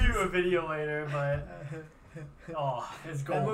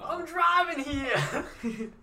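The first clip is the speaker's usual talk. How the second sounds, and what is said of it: Put-on New Jersey accent. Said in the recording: “Mine comes with my Jersey accent that I'm not from Jersey at all, but it just comes out of me sometimes when I get mad.”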